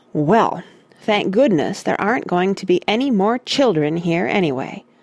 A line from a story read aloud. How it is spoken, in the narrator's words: said Randy crossly